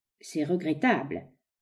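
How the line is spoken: Cold tone. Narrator (French): reprit froidement l'autre

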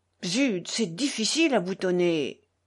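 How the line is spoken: Grumbled. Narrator (French): grommela de nouveau Mitya

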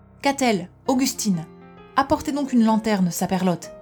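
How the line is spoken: Old man shouting. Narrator (French): cria le vieux aux deux femmes

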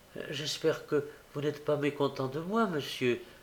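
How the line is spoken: Pleading. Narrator (French): dit Olivier en levant des yeux suppliants

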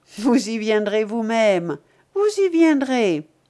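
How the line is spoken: Repeated sneering laugh. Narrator (French): Fortchambault répéta plusieurs fois de suite, en ricanant

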